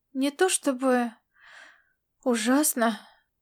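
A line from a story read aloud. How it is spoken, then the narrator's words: Girl sighing. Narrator (Russian): девушка вздохнула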